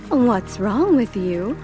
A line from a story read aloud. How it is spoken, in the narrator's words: her mother exclaimed